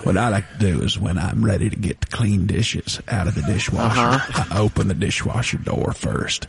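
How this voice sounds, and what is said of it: Low slow Texas vocal fry impression. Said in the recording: “With his accent, with his voice being at about a 4, right? Just a little bit below the normal line. ... Just a little bit of that Texas vocal fry. ... Texas vocal chicken fry”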